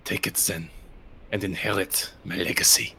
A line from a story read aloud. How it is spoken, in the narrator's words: a hoarse male voice whispering to you